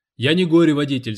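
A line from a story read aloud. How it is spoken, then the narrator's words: Yelling. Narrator (Russian): завопил тот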